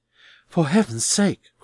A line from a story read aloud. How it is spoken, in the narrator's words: cried Neville